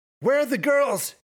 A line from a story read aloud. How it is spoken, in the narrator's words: he shouted